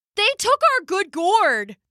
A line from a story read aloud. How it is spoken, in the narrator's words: they cried